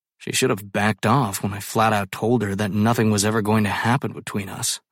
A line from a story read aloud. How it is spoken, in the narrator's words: I mutter